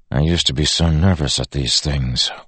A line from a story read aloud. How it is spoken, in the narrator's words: Wax said softly to Steris